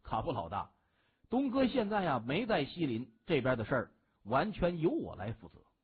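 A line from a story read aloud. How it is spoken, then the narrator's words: Smiling. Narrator (Chinese): 孟寻含笑就说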